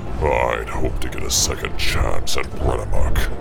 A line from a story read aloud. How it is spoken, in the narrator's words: he growled